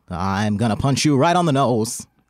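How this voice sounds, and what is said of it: 1940s old-movie style accent. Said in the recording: “Like how they talked in like the 40s ... If you talk like they talked in the old movies ... that would be an accent”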